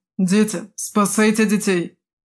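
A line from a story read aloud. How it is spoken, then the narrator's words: Hoarse rasp. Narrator (Russian): прохрипел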